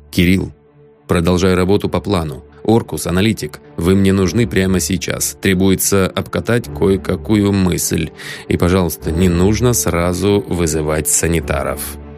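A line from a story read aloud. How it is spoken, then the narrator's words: Quiet, curt. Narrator (Russian): негромко бросил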